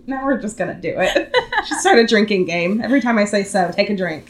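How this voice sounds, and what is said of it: Slightly deep, scratchy sick voice. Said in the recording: “It's a little off. Not bad... I feel like I'm a little deeper than normal... It's a little scratchy, too. It's deeper and scratchy.”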